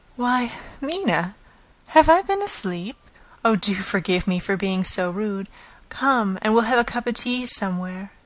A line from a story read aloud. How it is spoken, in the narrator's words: he woke up and said to me quite cheerfully